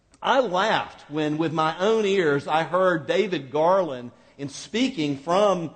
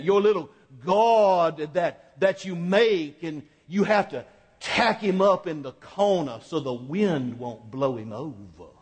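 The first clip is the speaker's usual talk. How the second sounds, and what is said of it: Mild Virginia accent impression. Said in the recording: “he had a little Virginia accent”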